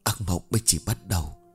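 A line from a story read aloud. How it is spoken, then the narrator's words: Uneasy soft whisper. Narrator (Vietnamese): Một sự bất an không kìm nén được trong tâm khảm, cô khẽ thì thầm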